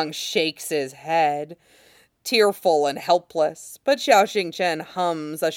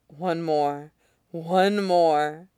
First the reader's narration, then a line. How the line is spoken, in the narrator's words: Xiao Xingchen breathes